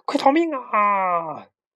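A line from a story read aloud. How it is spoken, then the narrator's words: Chicks shouting. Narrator (Chinese): 小鸡们大喊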